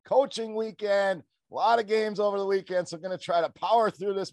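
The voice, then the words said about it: Strained, worn-out voice. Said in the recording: “you can probably hear it in my voice a little bit ... My voice, not at 100%”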